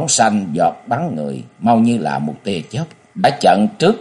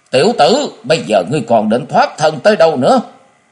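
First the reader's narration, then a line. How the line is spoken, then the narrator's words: Loud roar. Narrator (Vietnamese): Thất Hải Giật Tẩu gầm lớn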